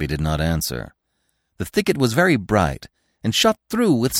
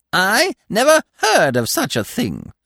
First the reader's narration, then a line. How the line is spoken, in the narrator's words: he cried in his split, cackling voice